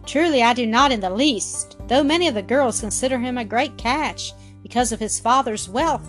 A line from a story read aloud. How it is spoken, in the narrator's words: said Mildred